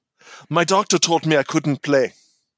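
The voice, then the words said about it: Put-on German accent. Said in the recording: “I didn't do the accent. ... The Germans.”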